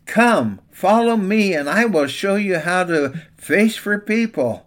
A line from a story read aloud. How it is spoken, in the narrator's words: Jesus called out to them